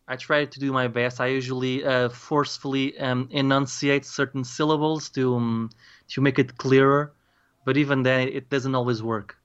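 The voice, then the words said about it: Strong accent, sometimes hard to understand. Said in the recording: “my accent ... a lot of my words are getting lost, or the way I pronounce them. My accent can be a little bit difficult to understand at times”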